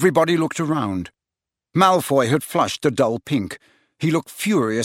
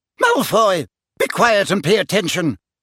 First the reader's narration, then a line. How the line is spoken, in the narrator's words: barked Professor McGonagall